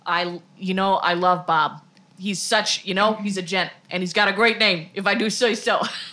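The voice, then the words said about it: Put-on Boston accent. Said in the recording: “My accent's evolving. ... Oh, no, now we're Boston again.”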